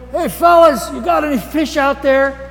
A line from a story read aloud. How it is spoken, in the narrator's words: he shouts out to them